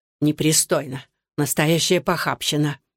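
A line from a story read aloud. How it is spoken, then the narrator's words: Imperious old woman muttering. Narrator (Russian): седая и властная, бормотала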